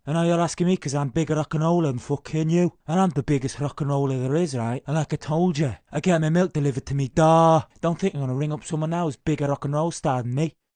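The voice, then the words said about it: Put-on accent, slightly off, Irish traces. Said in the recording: “I think the accent is almost there, a little bit off. I think you can tell it's an Irish channel, I think, because you can hear a little bit of Irish coming through there. He's kind of got the intonation right.”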